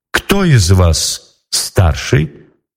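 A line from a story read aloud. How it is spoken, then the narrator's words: Plain. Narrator (Russian): спросила Елена Прекрасная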